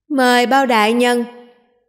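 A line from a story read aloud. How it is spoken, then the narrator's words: Hurried raised voice. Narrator (Vietnamese): Bát vương vội cao giọng nói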